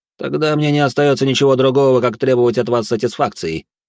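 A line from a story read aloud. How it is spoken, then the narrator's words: Loud declaration. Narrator (Russian): громко заявил благородный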